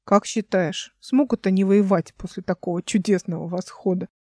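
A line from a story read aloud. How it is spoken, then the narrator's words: Plain. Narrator (Russian): спросил он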